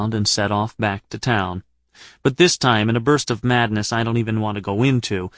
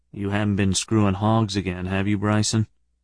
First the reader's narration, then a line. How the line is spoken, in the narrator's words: said in a more solemn tone